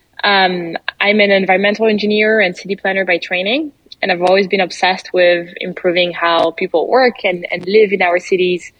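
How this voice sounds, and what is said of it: French accent. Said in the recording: “you probably noticed my accent already. I'm French”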